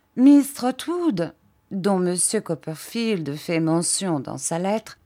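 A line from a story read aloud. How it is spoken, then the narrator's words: Plain. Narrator (French): dit Miss Clarissa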